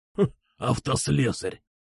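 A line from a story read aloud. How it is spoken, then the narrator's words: Snort. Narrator (Russian): хмыкнул Кукуша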